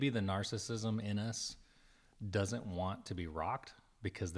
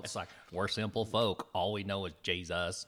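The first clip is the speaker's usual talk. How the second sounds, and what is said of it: Put-on folksy accent. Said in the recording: “I don't know what that accent was”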